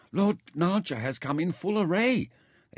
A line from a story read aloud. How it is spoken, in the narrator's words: they told her excitedly